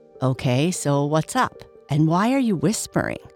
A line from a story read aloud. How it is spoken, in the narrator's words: asked Red